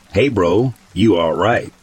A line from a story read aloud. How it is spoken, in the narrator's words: my brother asked